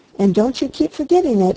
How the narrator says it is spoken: he cried

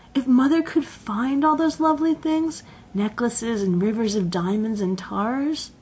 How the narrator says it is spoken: said Jane dreamily

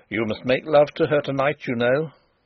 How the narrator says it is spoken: said in a sharp, decisive voice

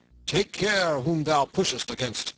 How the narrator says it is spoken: cried a great burly friar

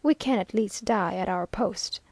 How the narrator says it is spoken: calmly said

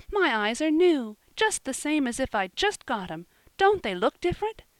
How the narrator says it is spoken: she asked earnestly

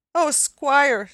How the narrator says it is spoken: sobbed Mary

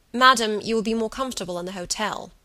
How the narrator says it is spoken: he said sharply

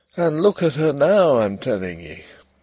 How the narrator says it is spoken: he would say gloomily

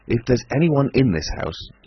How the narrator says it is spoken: he cried with an oath

